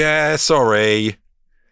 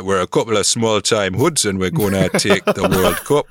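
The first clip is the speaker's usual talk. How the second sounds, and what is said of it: Put-on Geordie accent. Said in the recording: “they're Geordies. That's a whole different accent.”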